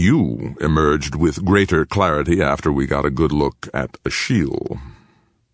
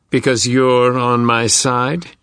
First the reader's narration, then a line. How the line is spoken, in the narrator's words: Peter said scornfully